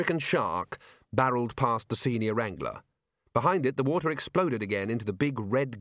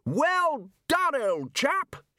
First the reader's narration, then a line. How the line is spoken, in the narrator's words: shouted Ridcully across the water